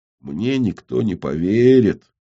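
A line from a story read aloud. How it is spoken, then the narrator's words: Sad, not rude. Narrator (Russian): грустно, не грубо, а грустно сказал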